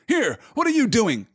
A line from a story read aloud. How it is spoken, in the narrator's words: cried Sam, his suspicions coming back